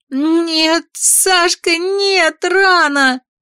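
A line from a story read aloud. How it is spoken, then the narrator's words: Terrified sobbing cry. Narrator (Russian): В ужасе вырвалось у меня вместе с рыданиями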